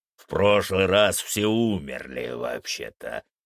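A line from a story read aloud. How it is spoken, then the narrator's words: Growl. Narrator (Russian): прорычал Фенрис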